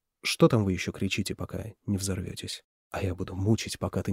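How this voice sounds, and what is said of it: Usual voice. Nothing is said of it.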